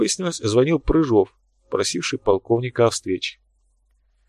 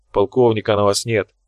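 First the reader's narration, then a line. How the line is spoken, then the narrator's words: Grumbling. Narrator (Russian): проворчал Тхар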